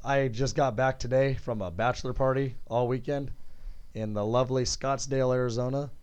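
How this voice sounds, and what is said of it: Hoarse, strained, partly lost voice. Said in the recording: “my voice has been kind of lost ... My voice was left there”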